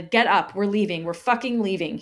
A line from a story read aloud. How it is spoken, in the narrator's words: barked